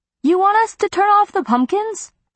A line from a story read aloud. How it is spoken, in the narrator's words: Sammy shouted from the driveway